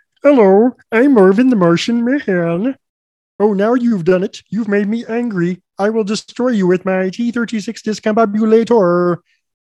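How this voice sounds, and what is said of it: Marvin the Martian cartoon voice impression. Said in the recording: “my Marvin the Martian is probably the best impression that I do ... he talks like this ... Nailed it”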